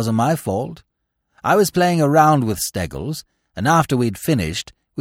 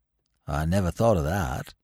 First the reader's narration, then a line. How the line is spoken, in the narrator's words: he said gloomily